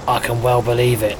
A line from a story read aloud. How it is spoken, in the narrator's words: muttered Elmander